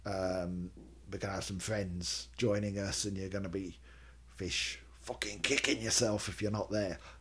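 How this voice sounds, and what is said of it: Weak put-on Scottish accent. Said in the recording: “Apologies to any Scottish listeners. I know my Scottish accent isn't great.”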